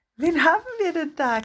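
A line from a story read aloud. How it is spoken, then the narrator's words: Giggling big boy. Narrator (German): kicherte der große Junge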